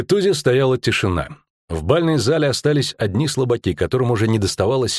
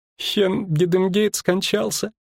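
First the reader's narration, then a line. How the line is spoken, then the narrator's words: Brittle breaking voice. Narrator (Russian): сказала она ломким голосом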